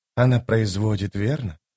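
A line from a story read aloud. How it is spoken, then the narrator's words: Sighing. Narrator (Russian): вздохнула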